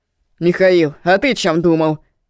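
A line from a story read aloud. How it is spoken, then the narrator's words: Stern question. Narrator (Russian): строго спросил он сына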